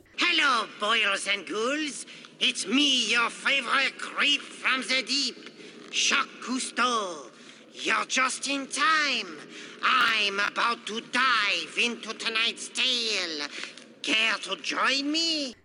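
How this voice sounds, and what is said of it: Slight put-on French accent. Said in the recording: “he's got a little French accent”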